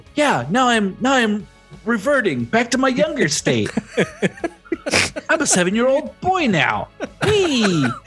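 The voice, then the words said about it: Childlike little kid voice. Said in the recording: “Now my voice sounds like this... This is what ... sounds like. I'm a little kid now.”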